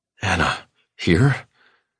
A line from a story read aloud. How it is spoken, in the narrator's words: I gasp